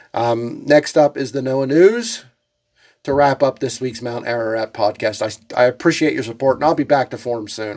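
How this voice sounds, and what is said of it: Sick, slightly unwell voice. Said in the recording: “I'm still slightly under the weather. I'm still coughing to a degree. You can probably still hear it in my voice that I'm not 100%.”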